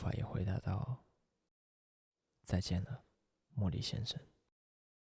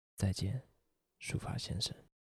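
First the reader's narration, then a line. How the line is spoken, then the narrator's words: Forced steady calm voice. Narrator (Chinese): 她深深吸了一口气，尽可能让声音平稳，对朋友说道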